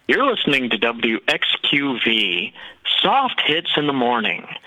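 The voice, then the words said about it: Imitation of soft-hits radio DJ voice. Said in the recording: “I'll do a little imitation of how they wanted me to sound”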